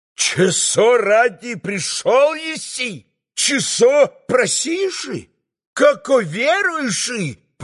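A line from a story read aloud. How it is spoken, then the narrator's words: Shouting, mocking holy fool. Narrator (Russian): Прокричал отец Ферапонт, юродствуя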